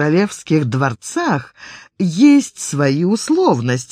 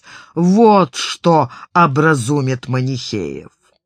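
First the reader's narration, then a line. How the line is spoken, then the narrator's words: Monk roaring as if awakened. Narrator (Russian): монах взревел, словно очнувшись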